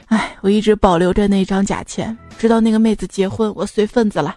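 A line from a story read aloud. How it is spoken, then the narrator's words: Sighing. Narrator (Chinese): 那个师兄叹了一口气说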